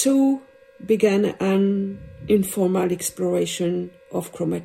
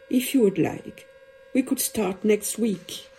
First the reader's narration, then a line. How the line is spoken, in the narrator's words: he concluded softly